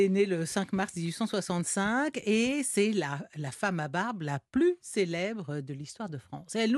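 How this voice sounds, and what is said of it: Usual voice. Nothing is said of it.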